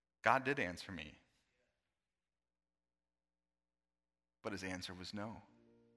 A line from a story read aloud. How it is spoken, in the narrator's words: the little girl replied very firmly